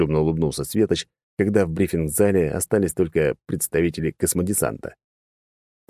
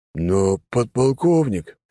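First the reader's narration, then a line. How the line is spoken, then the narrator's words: Booming forgetful rumble. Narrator (Russian): прогудел майор, на секунду забыв о субординации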